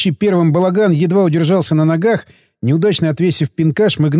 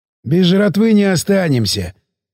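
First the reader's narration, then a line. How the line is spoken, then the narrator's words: Hoarse snort. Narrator (Russian): хмыкнул сиплый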